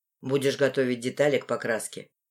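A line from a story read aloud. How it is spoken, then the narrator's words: Stern voice. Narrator (Russian): проговаривает строгим голосом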